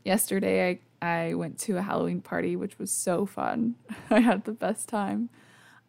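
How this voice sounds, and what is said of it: Hoarse, fading voice. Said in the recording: “I'm also losing my voice ... I probably shouldn't be recording a podcast while I'm losing my voice ... before I fully lose it”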